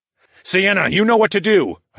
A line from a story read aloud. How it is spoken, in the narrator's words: shouted in a grim voice